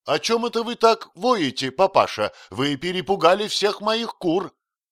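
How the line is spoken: Frightened exclamation. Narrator (Russian): Анхин с испугом воскликнула

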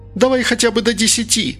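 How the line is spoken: Shouting out window. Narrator (Russian): закричала Инга в окно

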